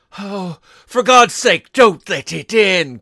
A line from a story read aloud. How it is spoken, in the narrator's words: cried the old man, trembling